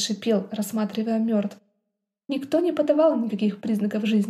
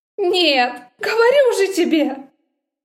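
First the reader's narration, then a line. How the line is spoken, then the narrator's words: Near sobbing woman. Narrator (Russian): Она уже почти рыдала, прижимаясь ко мне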